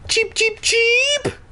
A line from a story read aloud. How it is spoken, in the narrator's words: I squealed